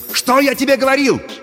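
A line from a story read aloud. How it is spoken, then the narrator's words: Excited shouting. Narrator (Russian): возбужденно кричал Пашка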